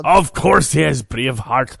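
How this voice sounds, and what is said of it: Poor put-on Scottish accent. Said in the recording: “my shitty Scottish accent”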